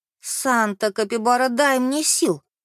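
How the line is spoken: Moaning. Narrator (Russian): простонала Клара

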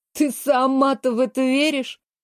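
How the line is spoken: Mocking. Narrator (Russian): насмешливо вскинула брови Сандра

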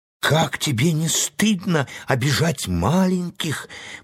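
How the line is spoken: Exclaimed, repeating remembered words. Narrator (Russian): повторяла когда-то сказанная сестрой слова, воскликнула Энни

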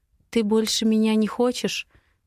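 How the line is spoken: Quiet question. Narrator (Russian): негромко спрашиваю я

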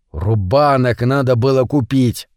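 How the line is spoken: Grumbling. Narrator (Russian): ворчал потом Митя

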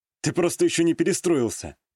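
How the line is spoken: Snorting reply. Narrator (Russian): хмыкнул я в ответ

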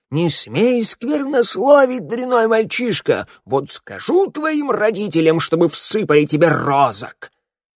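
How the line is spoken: Shouted. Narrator (Russian): голова Мороя и закричала

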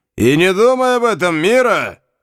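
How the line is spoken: Colonel's shout. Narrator (Russian): крикнул полковник Кока

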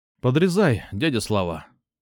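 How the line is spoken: Outwardly calm command. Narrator (Russian): Внешне спокойно скомандовал

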